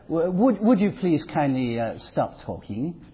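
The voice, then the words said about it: Put-on English accent. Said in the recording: “he has an English accent”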